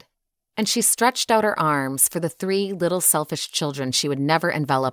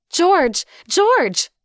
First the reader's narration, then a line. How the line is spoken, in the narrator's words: she cried when she could speak